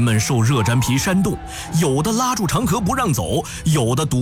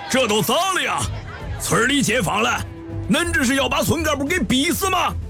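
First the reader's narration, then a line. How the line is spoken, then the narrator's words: Loud calling out. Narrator (Chinese): 楼开工大声吆喝着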